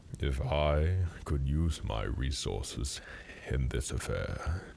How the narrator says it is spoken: Erebus said, the rumble underlying his voice crackling like thunder

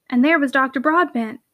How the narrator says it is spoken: cried Hannah

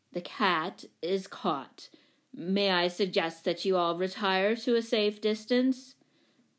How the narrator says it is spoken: Professor Quincy announced solemnly

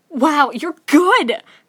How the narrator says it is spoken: Midoriya exclaims

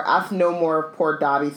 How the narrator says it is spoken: stammered the elf

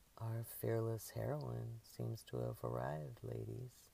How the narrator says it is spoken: Jasper announced in a low drawl

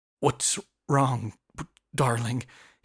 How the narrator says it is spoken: he asked, but his voice had a glitch

